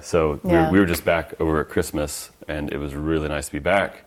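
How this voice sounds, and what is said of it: Loud American accent. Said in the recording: “my loud American accent is, you know, I'm from American and I'm from Arizona”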